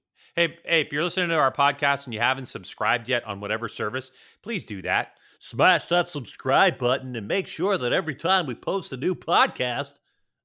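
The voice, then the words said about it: Campy exaggerated announcer voice. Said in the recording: “do that voice? ... you did the same spiel in a stupid voice ... it was kind of campy”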